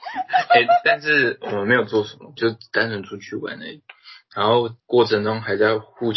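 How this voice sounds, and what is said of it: Usual voice. Nothing is said of it.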